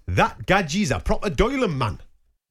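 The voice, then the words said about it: Put-on Geordie accent. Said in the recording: “I'll do it in the accent, because this isn't from my neck of the woods ... Do you know what accent I'm doing? ... it sounds like Geordie ... I'm in the northeast”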